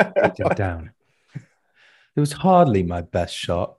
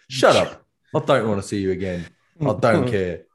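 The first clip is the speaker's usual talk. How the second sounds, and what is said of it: Imitates another person's voice. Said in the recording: “A pretty good Jake impression there.”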